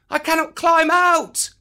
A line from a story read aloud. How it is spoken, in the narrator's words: cried Mowgli